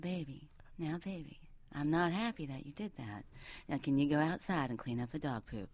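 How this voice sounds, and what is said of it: Whispered Southern accent. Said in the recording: “whisper in a Southern accent”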